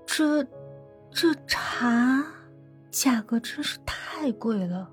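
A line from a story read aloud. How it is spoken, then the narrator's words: Mumbling. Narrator (Chinese): 白昕……喃喃的说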